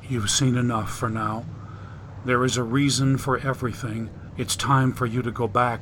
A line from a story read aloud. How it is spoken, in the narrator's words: Gently, Mira replied